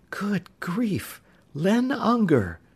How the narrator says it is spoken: Sandy whispered

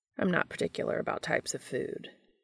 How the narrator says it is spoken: he murmured

